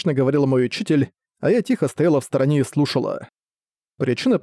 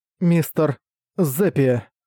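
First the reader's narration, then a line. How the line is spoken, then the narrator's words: Forced out with difficulty. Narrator (Russian): кое-как выдавила из себя я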